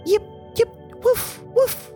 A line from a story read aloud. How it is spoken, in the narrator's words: Puppy yelped with happiness and he said